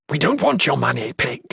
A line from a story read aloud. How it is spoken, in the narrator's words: Hardman hissed